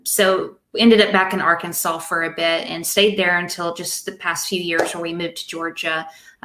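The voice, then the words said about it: Southern American accent. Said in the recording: “spent most of my life down in the South. That's where my accent comes from ... I'm trying to learn how to tone it down a little bit. But anytime I get excited, it comes right back out”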